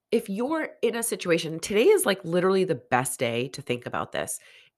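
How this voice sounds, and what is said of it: Congested, nasal voice with sniffles. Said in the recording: “I am a bit under the weather. I'm sure you can hear it in my voice ... the sniffles and for the nasally voice today”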